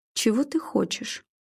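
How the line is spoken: Calm question after pause. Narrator (Russian): спокойно спросила она после непродолжительной паузы

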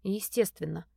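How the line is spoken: Gloomy. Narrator (Russian): мрачно

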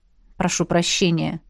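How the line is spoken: Unrepentant grumble. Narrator (Russian): Буркнул, хотя не испытывал раскаяния

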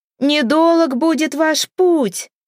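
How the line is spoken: Witch shouting after. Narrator (Russian): кричала ведьма вслед тюленю

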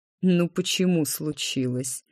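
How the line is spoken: Snorting. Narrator (Russian): наместник хмыкнул

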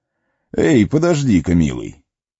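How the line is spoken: Sudden exclamation. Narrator (Russian): воскликнул он вдруг

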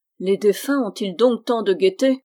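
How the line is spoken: Doubtful grumble. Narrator (French): grommela Bruno, pris d'un doute

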